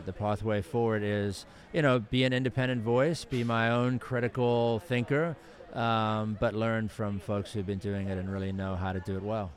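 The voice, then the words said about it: South African accent. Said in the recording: “So that's not a Baltimore accent. ... that's a South African.”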